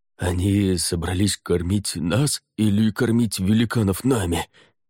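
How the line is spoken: Hoarse rasp. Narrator (Russian): прохрипел Кхантаж

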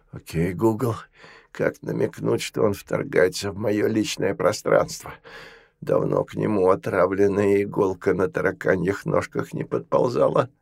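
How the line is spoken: Angry hiss into phone. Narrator (Russian): Федор же багровее шипел в свой телефон

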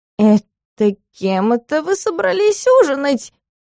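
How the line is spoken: Squeaky voice. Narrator (Russian): Пискнул из круга Дакар

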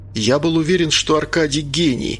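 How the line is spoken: Exclaiming. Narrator (Russian): воскликнул капитан

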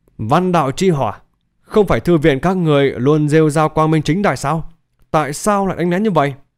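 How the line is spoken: Hoarse voice. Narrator (Vietnamese): khàn khàn nói

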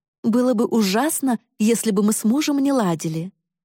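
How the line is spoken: Astonished reply. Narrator (Russian): изумленно ответила мама

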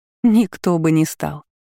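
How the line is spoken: Laughing reply. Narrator (Russian): засмеялась в ответ Амели

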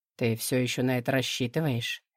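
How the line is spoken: Soft question. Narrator (Russian): мягко спрашивает

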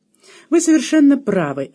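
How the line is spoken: Cheerful reply. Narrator (Russian): весело отозвался он

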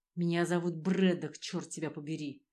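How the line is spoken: Hiss. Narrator (Russian): Прошипел

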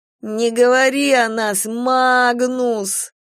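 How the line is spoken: Boy moaning. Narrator (Russian): застонал мальчик

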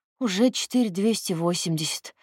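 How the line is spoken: Weak interjecting voice. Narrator (Russian): вмешалась слабым голосом его жена

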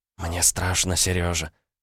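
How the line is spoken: Whispered. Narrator (Russian): прошептала она

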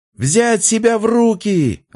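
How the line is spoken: Yelling. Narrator (Russian): орал Фомин

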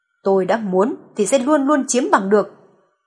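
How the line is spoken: Harsh, through gritted teeth. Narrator (Vietnamese): Clarence nghiến răng nghiến lợi gằn giọng

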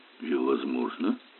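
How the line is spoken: Muttered. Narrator (Russian): пробормотал Эллери

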